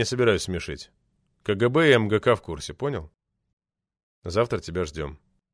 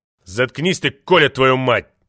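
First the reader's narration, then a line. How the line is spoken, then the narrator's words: Barked. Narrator (Russian): рявкнул Владимир Иванович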